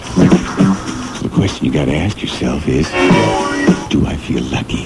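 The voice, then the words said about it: Clint Eastwood impression. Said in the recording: “my best Clint Eastwood imitation”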